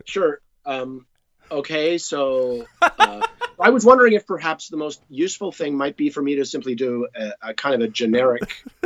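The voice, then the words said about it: Generic American accent. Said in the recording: “your best version of an American accent? ... That's good. ... This is so good. It's really good.”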